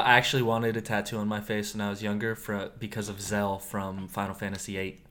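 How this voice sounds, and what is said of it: Usual voice. Nothing is said of it.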